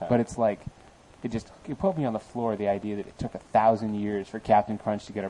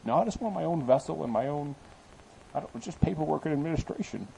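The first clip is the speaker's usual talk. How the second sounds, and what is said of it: Cartoon captain voice, imitates another person's voice. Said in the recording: “my Captain Crunch impression. ... Which sounded like Sean Connery as usual.”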